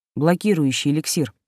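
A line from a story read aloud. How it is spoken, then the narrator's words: Calm explanation. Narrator (Russian): спокойно пояснил Кристор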